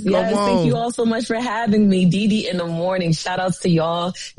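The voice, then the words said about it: New York accent. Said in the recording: “I love that accent, though. Y'all hear her accent? That's that real New York accent ... That's that Jersey.”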